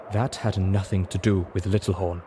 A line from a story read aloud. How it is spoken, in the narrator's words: Zenith said solemnly